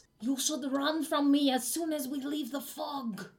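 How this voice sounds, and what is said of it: Whispered Austrian-accented character voice. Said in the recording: “it almost sounds like it was whispered ... the voice of Puddles in his Austrian accent”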